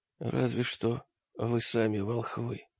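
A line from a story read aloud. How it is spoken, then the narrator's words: Quieter wounded rasp. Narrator (Russian): прохрипел раненый тише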